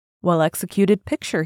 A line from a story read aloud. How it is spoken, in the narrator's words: he said